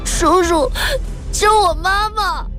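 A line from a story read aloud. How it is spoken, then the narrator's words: Crying little boy. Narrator (Chinese): 小男孩哭着说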